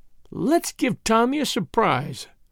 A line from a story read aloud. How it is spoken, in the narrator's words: murmured Tuppence